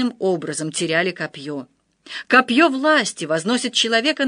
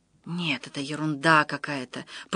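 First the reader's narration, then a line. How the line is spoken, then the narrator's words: Whisper. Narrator (Russian): прошептал Андрей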